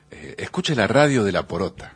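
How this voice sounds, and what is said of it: Radio announcer voice. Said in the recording (Spanish): “¿Es habla con esa voz de locutor?”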